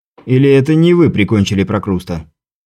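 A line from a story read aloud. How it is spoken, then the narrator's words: Resigned sighing correction. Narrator (Russian): Я обреченно вздохнул и поправил изобретателя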